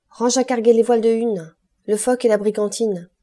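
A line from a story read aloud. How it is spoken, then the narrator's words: Young sailor shouting. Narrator (French): cria le jeune marin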